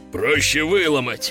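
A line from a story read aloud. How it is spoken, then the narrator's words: Deep bass, boar. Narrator (Russian): пробасил кабан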